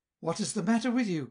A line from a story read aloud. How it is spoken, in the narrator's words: cried Wilhelm